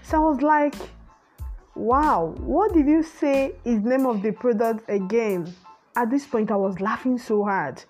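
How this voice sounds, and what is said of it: Nigerian accent. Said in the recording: “if you are a Nigerian, you will understand my accent now”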